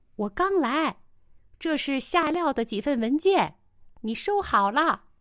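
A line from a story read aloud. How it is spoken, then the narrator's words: Loud. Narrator (Chinese): 丁元英大声说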